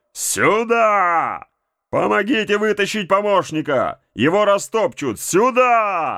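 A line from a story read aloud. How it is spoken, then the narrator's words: Desperate shout. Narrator (Russian): Боцман отчаянно заорал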